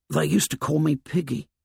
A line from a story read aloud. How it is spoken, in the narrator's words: He whispered